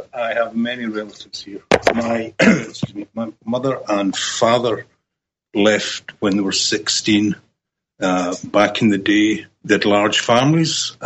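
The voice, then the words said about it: Scottish accent. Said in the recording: “he's got a beautiful Scottish accent”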